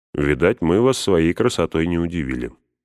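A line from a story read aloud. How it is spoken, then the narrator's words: Plain. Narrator (Russian): сказал Сэм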